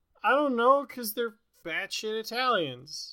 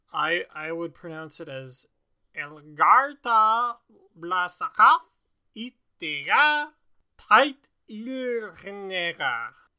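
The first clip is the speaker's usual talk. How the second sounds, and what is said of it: Put-on German accent. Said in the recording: “Why did you say that with like a German accent?”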